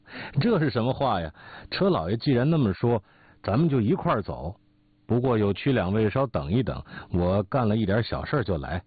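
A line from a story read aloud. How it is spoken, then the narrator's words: Hearty laughter. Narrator (Chinese): 董贤哈哈大笑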